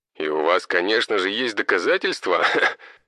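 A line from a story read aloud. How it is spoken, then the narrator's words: Scoffing. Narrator (Russian): хмыкнул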